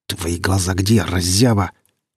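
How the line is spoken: Angry through teeth. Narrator (Russian): зло процедил Гриф

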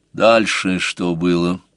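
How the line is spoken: Muffled interruption. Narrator (Russian): глухо перебил Сварог

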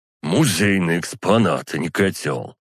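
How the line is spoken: Grumbling. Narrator (Russian): проворчал Александр

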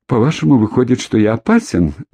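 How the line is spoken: Cheerful inquiry. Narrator (Russian): весело осведомился Болтун

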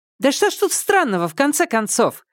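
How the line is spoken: Impatient exclamation. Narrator (Russian): нетерпеливо воскликнула Тан Сяотан

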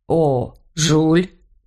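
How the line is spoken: Hoarse, unsteady voice. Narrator (Russian): Бернар был уже трезв, но голос его звучал все еще хрипло и неуверенно

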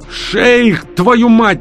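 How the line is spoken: Yelling. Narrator (Russian): орали голосом Астрахана

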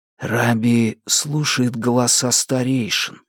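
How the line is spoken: Young man whispering. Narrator (Russian): шепотом говорит юноша

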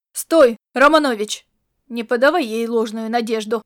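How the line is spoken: Growled. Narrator (Russian): рыкнул

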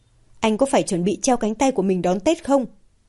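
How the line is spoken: Angry irritated tone. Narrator (Vietnamese): Mạc Đình Kiên với một sự tức giận, bực bội trong giọng điệu

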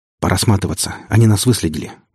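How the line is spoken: Quick. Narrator (Russian): быстро произнес Игнат

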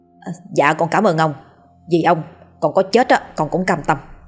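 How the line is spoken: Beaming effusive thanks. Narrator (Vietnamese): Gã cười tươi rói, rối rít

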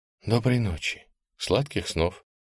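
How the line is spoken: Whispered wish. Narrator (Russian): пожелал я шепотом

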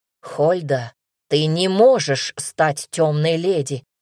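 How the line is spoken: Growling, barely restrained jealousy. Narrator (Russian): В голосе Тиля появились рычащие нотки от едва сдерживаемой ревности

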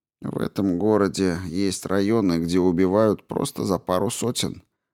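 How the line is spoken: Grumbled. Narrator (Russian): проворчал Кин

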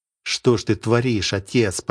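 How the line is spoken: Muttering. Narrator (Russian): пробормотал Сергей

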